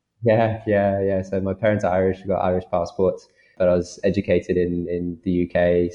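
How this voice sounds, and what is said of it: British accent. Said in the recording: “I've got a British accent ... the only thing that comes out of me that's British is the accent”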